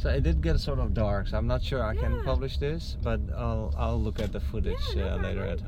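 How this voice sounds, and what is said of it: Thick Dutch accent. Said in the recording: “As soon as I heard your accent, I was like, he's Dutch. ... It's that thick, huh?”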